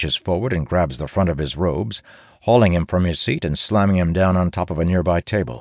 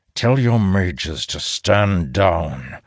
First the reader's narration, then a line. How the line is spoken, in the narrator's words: Elias growls